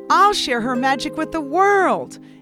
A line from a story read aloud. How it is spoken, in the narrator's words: exclaimed Nico